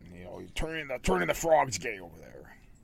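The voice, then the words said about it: Imitates another person's voice. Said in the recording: “my Alex Jones impersonation.”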